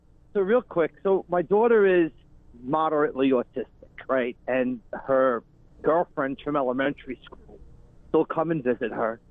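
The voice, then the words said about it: Long Island accent. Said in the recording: “We recognize that Long Island-ass accent ... Immediately? ... Right away.”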